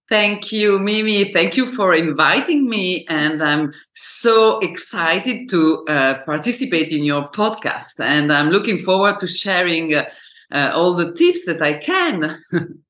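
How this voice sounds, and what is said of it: Speaks English with a foreign accent. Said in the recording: “everyone can hear that you have an accent.”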